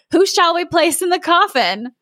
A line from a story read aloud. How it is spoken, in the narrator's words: the leader cried out